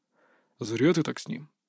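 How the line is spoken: Quiet. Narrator (Russian): тихо сказал Кабанов

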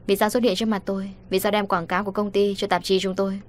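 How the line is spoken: Cold. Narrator (Vietnamese): Cô lạnh lùng nói

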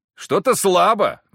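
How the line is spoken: Shout. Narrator (Russian): крикнул я

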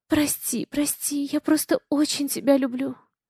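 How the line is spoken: Sobbing, tender whisper. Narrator (Russian): всхлипывание, нежный шепот

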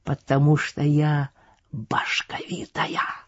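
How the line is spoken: Passionate whisper. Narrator (Russian): объяснила Любка страстным шепотом

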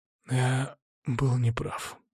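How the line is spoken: Whispered. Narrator (Russian): прошептал он

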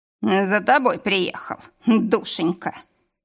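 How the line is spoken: Snorting. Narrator (Russian): хмыкнул

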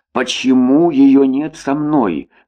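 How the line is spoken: Plain. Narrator (Russian): спросил Иван

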